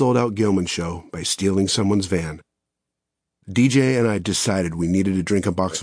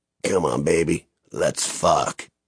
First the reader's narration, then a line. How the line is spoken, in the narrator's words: In his dry, raspy, half-asleep voice, he purred